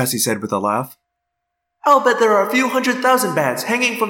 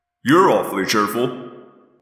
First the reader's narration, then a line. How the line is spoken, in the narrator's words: Jake grumbled